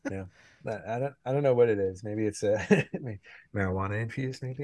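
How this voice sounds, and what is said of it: Mellow, low radio voice. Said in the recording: “It's my radio voice day ... I'm having a mellow day ... Totally do an ASMR episode”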